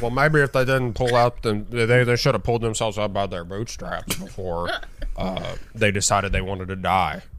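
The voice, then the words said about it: Imitates another person's voice. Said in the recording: “my dumb Mitch McConnell impression”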